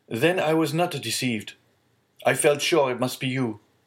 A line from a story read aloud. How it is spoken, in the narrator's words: cried Villefort